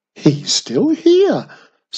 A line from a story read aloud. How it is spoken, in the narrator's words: said Mum excitedly